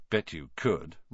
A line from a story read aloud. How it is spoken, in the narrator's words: Ron muttered